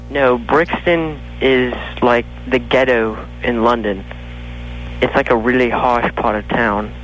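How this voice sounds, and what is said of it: Bad made-up London accent. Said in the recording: “The hell kind of accent is this? ... It's a made-up one. ... It's so bad. It's good, though.”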